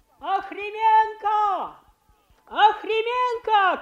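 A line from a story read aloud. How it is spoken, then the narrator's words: Good-natured shouting. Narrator (Russian): кричал через головы людей какой-то добродушный парень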